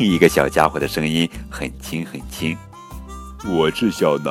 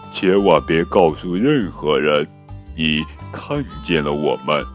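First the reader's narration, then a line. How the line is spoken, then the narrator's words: Small creature growling low. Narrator (Chinese): 最后一个小家伙低吼着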